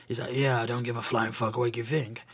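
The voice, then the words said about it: Poor imitation of a gruff character. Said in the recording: “my Roy Kent impression. It's fucking awful.”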